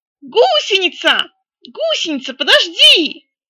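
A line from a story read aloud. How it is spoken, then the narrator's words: Shouted. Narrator (Russian): крикнул Кряка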